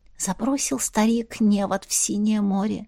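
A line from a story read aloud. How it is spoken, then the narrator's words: Reminiscent whisper. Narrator (Russian): прошептала Настя, вспоминая сказку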